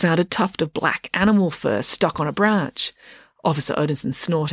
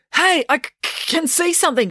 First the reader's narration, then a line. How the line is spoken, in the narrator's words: shouted Joe